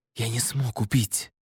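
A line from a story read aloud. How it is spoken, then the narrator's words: Whisper. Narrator (Russian): шептал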